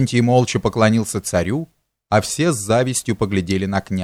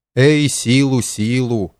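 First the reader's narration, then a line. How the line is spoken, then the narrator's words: Sovereign sighing. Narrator (Russian): вздохнул государь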